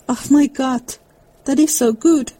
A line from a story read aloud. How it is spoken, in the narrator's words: cried Mr